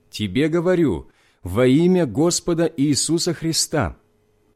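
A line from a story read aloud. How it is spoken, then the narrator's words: Loud voice. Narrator (Russian): сказал громким голосом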